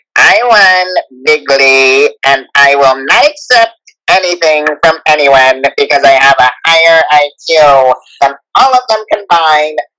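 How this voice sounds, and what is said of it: Nasal Donald Trump impression. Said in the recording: “Trump is a nasally one.”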